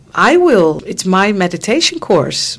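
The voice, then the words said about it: Imitated American accent. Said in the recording (Dutch): “met zijn Amerikaans accent”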